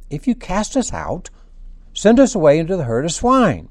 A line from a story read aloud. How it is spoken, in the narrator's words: the demons begged him